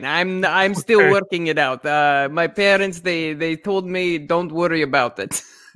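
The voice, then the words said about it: Put-on Russian-sounding accent. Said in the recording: “sounds Russian? Maybe from Ukraine.”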